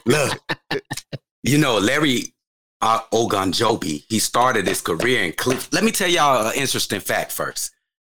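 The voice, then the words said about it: Put-on accent. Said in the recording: “with the accent, too.”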